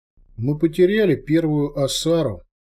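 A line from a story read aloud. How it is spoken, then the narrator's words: Muffled, restrained emotion. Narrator (Russian): глухо произнес Майранг, справившись с волнением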